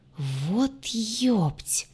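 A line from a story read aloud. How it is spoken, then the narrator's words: Pained groan. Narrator (Russian): простонал, сползая по стене, куда его отшвырнула ополоумевшая родственница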